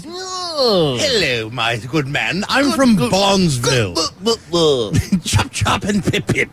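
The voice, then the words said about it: Put-on posh British accent. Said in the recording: “he's got that British accent ... you'll find accents in Palmer. You just won't find British accents.”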